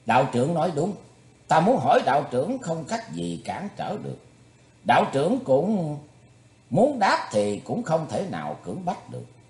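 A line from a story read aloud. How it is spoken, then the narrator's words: Smiling, amused. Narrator (Vietnamese): mỉm cười nhìn lão đạo trưởng rồi nói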